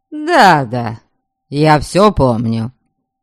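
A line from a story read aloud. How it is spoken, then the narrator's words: Irritated interruption. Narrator (Russian): раздраженно перебил ее князь Ярослав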